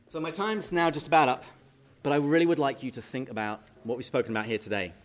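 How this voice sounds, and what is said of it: Speaks with a noticeable accent. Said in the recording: “I have an accent”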